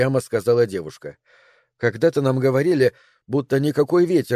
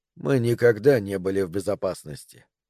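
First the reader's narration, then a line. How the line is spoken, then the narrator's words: Quiet. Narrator (Russian): негромко сказал Тауэрс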